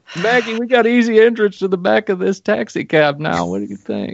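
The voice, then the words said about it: Imitates another person's voice. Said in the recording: “terrible, terrible Clinton impersonation”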